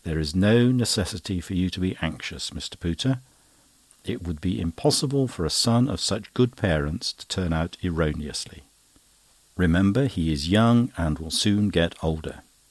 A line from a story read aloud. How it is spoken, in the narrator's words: Perkupp kindly replied